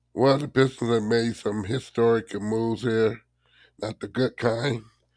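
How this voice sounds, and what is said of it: Hoarse, recovering voice. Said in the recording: “I'll be clearing my voice several times because I lost my voice on Wednesday”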